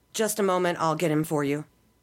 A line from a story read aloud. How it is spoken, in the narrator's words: the woman replied